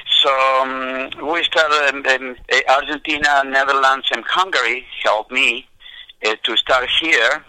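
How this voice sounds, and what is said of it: Non-native English accent. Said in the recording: “Can you imagine me calling golf courses with my accent”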